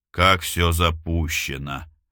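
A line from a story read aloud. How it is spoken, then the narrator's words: Drawling. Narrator (Russian): протянул Бабкин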